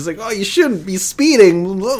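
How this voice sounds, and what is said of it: Impression of an anime dub character. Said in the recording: “that's my Krillin like dub impersonation, because he kind of sounds like that in the dub”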